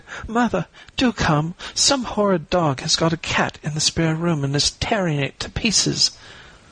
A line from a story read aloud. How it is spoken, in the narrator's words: they cried